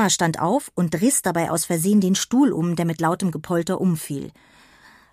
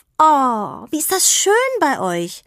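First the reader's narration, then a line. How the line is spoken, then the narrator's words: Giggling call. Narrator (German): Peggy kicherte, lief hurtig aus der Küche durch den Flur ins Wohnzimmer und rief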